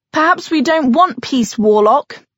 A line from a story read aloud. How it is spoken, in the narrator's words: someone shouted